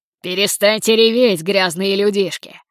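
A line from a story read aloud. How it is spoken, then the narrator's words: Growling into phone. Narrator (Russian): прорычал Гектор прямо в трубку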